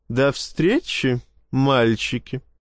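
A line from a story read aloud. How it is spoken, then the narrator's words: Ringing laughter, witch. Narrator (Russian): звонко рассмеялась ведьма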